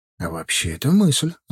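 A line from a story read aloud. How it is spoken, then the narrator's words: Thoughtful answer. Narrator (Russian): задумчиво ответил я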